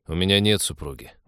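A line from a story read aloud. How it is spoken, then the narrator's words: Grumble. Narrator (Russian): буркнул капитан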